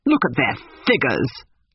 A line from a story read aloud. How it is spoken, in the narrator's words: laughed Miss Lavish